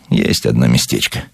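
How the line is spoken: Evasive superstitious mutter. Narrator (Russian): уклончиво, суеверно пробормотал

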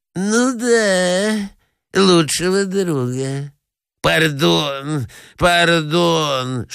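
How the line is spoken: Lisping. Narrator (Russian): шепелявит князь

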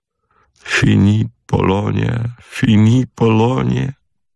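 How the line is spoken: Sobbing repetition. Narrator (Russian): повторял, всхлипывая, пан Пржегодский

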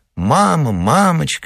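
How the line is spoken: Endless babbling. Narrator (Russian): без конца лепетала Катенька

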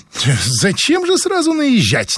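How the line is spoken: Displeased snort. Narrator (Russian): недовольно фыркнула

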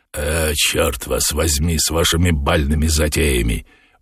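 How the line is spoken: Grumbling. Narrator (Russian): буркнул Воланд

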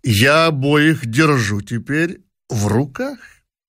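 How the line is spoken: Sly smiling conclusion. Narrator (Russian): хитро улыбаясь, заключил он

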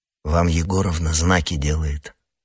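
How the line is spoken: Whisper. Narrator (Russian): шепнул Юра

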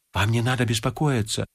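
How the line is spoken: Whispered. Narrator (Russian): зашептал Полесов

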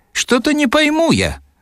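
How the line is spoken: Cheerful, lucid. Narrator (Russian): заговорил он весело и осмысленно

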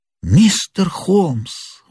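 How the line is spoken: Exclaimed. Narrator (Russian): воскликнул Мэриветтер

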